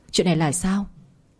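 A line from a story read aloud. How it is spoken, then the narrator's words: Trembling woman's voice. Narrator (Vietnamese): Toàn thân của bà run rẩy nói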